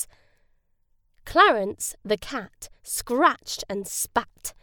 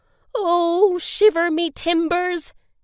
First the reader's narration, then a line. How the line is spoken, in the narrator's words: he wailed